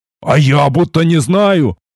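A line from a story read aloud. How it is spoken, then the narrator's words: Displeased growl, hint of fear. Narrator (Russian): недовольно прорычал самый громкий, в чьем недовольстве слышались нотки страха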